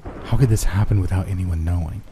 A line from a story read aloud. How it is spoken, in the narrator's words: Chris breathed, fighting the urge to throw up